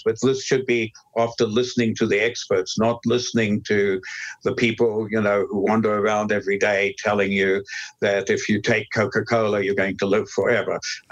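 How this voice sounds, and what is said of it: South African accent. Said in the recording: “you have a British accent, I think British, right?... Nope. I'm South African originally... I love your accent. Very charming.”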